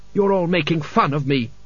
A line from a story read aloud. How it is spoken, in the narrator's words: snapped Kaylee